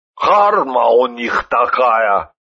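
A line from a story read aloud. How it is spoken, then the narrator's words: Annoyed snort. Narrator (Russian): досадливо хмыкнул Сталин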